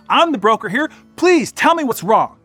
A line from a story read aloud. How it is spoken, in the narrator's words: Les said excitedly